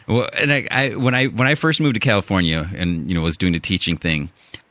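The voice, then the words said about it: Chicago accent. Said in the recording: “my "the" usually comes out as "duh." You know, my Chicago accent ... your Chicago accent”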